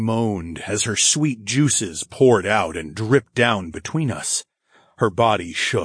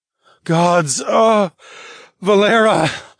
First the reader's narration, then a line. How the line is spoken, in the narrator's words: I groaned